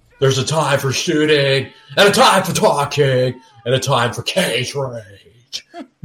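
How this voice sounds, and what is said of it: Nicolas Cage impression. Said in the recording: “he's going Nicolas Cagey now ... your cage impression ... That's the most accurate impression of Nicolas Cage of all time ... impression is bad.”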